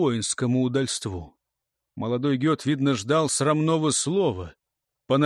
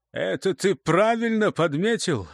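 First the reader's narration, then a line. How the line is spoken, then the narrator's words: Laughing. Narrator (Russian): засмеялся Тьельвар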